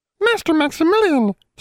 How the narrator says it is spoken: squeaked a house elf

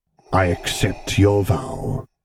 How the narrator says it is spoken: he rumbled back

